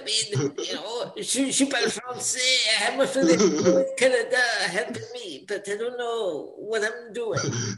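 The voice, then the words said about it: Mock French accent. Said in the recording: “What is this accent that ... doing? Because that ain't French. I can do a French accent.”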